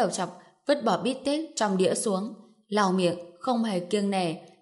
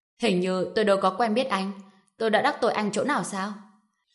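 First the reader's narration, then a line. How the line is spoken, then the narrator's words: Cold laugh, questioning. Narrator (Vietnamese): Trần Bình lạnh lùng cười một tiếng hỏi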